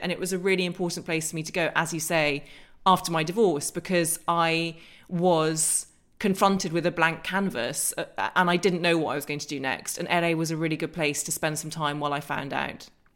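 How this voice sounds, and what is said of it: English accent. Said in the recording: “they love sexy English accents ... I'd hated my accent”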